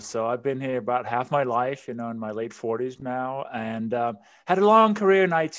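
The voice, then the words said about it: Danish accent. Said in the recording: “as you can probably hear from my accent and my name, I wasn't born in this country... I immigrated from Denmark”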